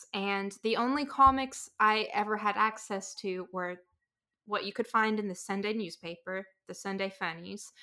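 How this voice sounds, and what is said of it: Rural regional accent. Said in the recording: “I grew up in a very rural area. I don't know if you can tell from the accent”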